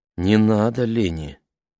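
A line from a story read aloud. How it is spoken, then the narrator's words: Gentle interruption. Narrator (Russian): мягко перебил ее мистер Уокер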